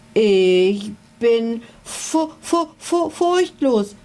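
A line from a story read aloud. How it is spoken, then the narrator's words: Stuttering. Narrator (German): stotterte er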